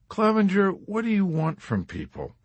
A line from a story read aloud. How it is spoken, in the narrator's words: Dunbar had replied wearily above the noises of the officers' club